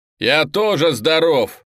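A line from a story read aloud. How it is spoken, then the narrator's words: Shout. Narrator (Russian): крикнул Облаков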